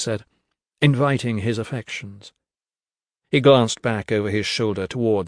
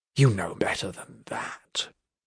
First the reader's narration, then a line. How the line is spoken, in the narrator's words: he said, his voice dropping to a whisper